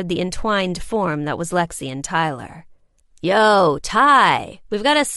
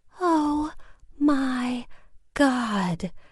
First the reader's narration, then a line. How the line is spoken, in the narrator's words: Lexi whispered, a goofy grin spreading across her face